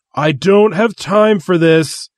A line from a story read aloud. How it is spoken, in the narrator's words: the Grand Wizard yelled